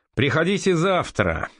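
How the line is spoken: Displeased shout. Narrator (Russian): недовольно крикнул Аричан

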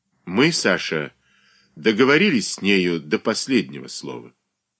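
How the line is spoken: Dry reply. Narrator (Russian): Катерина Александровна сухо ответила

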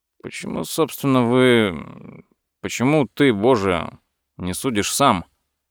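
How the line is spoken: Thoughtful question. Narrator (Russian): спросил Куглер задумчиво

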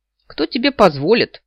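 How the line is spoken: Indignant snort. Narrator (Russian): негодующе фыркнул Валь

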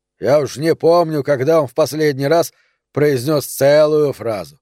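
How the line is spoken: Grumbling mutter. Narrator (Russian): пробурчал Нери

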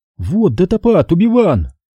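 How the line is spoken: Excited. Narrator (Russian): взволнованно сказал Астри

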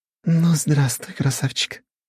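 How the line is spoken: Breathy exhale. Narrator (Russian): выдохнула она

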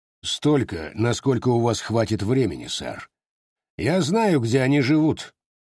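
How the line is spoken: Plain. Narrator (Russian): ответил Руфус

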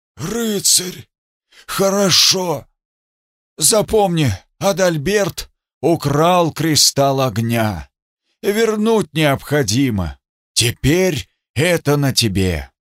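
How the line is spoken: Crushed man's wheeze. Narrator (Russian): Придавленный прохрипел

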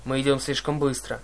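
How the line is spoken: Gloomy. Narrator (Russian): мрачно произнес капитан

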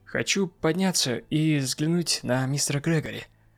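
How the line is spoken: Plain. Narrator (Russian): сказал я

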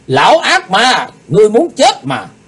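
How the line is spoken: Loud shout. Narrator (Vietnamese): Lạc Bá Đào hắn hét lớn

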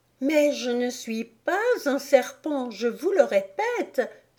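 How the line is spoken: Exclaimed. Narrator (French): s'écria Alice

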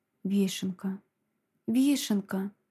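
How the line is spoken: Whisper. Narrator (Russian): прошептала я

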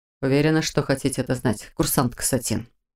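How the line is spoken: Quiet clarifying. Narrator (Russian): тихо уточнил Мор

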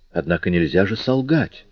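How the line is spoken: Sister's whisper. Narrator (Russian): прошептала сестра

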